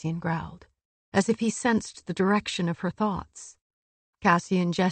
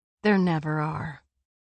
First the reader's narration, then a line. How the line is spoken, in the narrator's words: Nesta said coolly